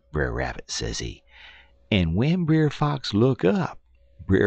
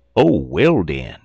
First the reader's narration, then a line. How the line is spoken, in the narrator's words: exclaimed the old man